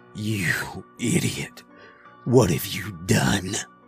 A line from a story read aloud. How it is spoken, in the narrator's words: he choked out, with the rage of a cornered animal